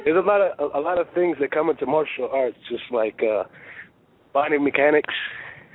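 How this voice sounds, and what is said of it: Bronx New York accent. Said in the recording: “We, we love his accent from the Bronx.”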